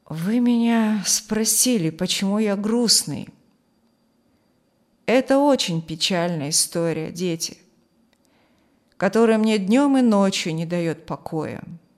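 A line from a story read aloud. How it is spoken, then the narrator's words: Deep sigh, sad. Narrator (Russian): глубоко вздохнув, сказал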